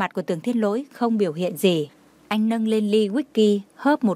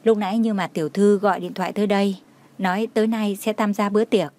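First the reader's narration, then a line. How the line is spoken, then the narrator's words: Careful. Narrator (Vietnamese): Đông Anh cẩn thận mới nói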